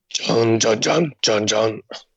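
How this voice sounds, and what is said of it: Mouth imitation of a guitar. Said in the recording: “That was such a good impression. Were you just playing the guitar? ... Your mouth does a great guitar impression.”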